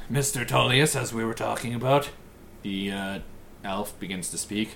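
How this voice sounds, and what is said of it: Usual voice. Nothing is said of it.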